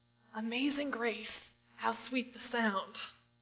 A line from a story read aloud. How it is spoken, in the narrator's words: if one of you were lying on your hospice bed and you gasped out